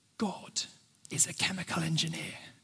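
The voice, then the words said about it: Hushed, quiet voice. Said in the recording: “in a hushed voice,”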